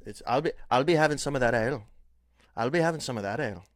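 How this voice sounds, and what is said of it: Put-on Irish accent. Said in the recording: “right now I'm doing an Irish accent ... that's pretty good”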